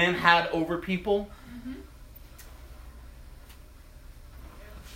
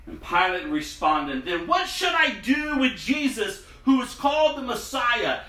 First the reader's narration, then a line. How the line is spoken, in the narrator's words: They shouted back